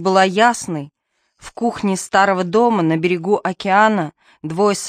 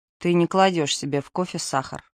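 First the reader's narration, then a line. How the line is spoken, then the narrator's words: Mutter. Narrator (Russian): пробормотал Артур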